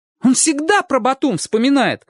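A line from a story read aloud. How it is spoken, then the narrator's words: Exclamation. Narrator (Russian): воскликнул Чик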